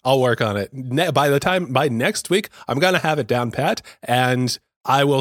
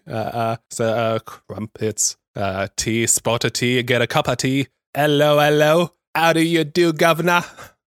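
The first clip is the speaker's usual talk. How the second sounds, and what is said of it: Put-on British accent. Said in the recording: “Do I have a British accent in me? ... That was pretty good.”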